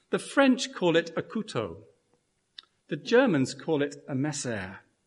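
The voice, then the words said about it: Speaker's accent on French words. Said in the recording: “Forgive my accent, especially the French among us.”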